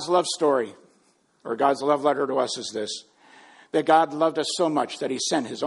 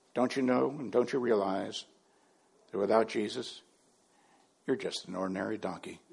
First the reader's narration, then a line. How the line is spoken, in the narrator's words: she said gently